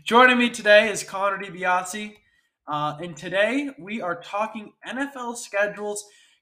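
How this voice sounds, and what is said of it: Stuffy, congested nasal voice. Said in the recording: “my nose is stuffy, but that's from pollen ... if my voice isn't as crisp or as delightful to hear as it usually is”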